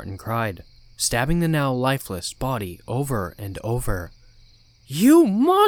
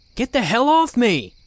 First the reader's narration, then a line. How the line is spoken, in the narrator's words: yelled as my phone was pulled from my grasp